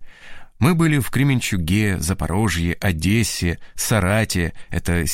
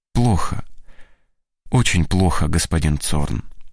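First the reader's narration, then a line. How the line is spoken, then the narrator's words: Sad. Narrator (Russian): отвечает грустно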